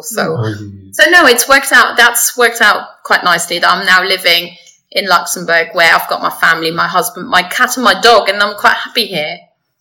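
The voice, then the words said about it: Slight British accent. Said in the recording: “sometimes the Luxembourgish accent does come out ... I do have a slight British accent”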